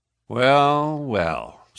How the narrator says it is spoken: said he coolly

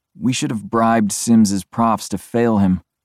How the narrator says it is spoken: Garrett says with a sigh

